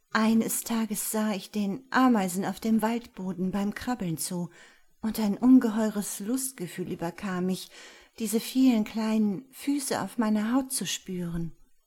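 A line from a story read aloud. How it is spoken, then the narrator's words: Trembling voice. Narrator (German): fuhr mit zittriger Stimme fort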